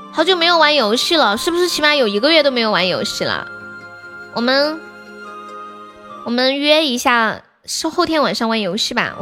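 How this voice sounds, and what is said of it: Hoarse voice, soft gentle speech. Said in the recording (Chinese): “我这两天嗓子有点哑啊，就觉得这样小声的温柔的讲话比较舒服一点”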